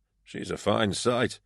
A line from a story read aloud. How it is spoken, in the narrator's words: he murmured to me